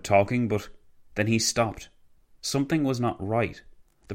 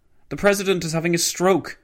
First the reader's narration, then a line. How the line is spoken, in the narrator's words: shouted Edward House